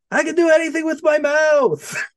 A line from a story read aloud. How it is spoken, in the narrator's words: he just screams